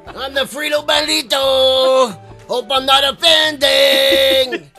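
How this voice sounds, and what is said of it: Put-on Mexican accent. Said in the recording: “doing someone with a Mexican accent”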